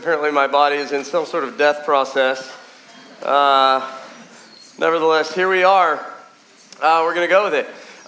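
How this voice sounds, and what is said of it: Nasal voice, losing voice. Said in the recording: “sounding a little nasally, kind of losing my voice.”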